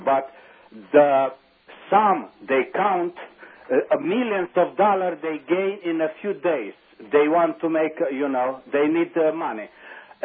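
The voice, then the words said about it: Romanian accent. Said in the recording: “I love your accent ... He has a certain Romanian charm”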